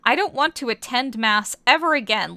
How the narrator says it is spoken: Lance whined into Keith's hair

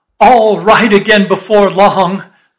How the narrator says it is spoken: laughed the stranger with a solemnly derisive sort of laugh

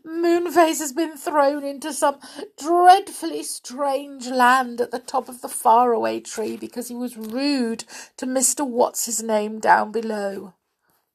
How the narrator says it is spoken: sobbed Silky

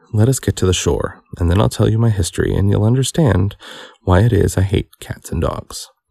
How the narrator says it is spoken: Its face was quite pale with passion, it said in a low, trembling voice

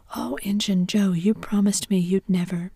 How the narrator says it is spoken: exclaimed

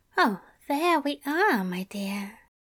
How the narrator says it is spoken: Aziraphale murmured

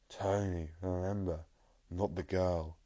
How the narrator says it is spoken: Tall man groans

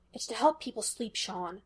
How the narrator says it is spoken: Gus whispered in irritation

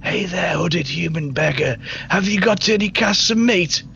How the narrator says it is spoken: you whisper through the shadows

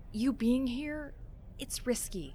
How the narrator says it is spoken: she breathed

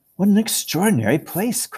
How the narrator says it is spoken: cried Lucy

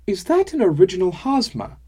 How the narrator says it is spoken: I blurted

